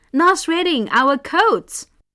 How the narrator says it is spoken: When they saw their coats reduced to a pile of ashes, they yelled

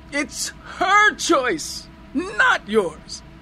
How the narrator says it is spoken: I screamed into his ear

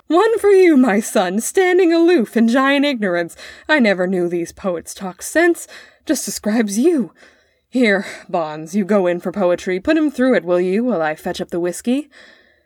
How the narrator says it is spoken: His father laughed again, roared

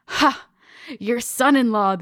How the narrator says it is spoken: the old man rasped

